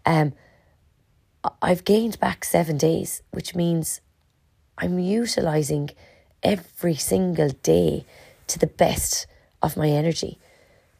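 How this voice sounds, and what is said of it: Hoarse, mostly lost voice. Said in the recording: “my voice is still gone from Killarney last weekend”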